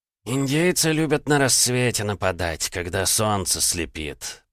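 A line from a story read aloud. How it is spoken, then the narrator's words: Grumbling old man. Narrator (Russian): пробурчал второй старик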